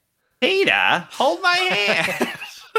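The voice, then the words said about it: Impression of a cartoon character's voice. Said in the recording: “that your impression of Lois from Family Guy”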